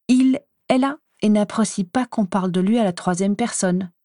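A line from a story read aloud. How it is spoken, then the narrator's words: Furious hiss. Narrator (French): sifflai-je, furieux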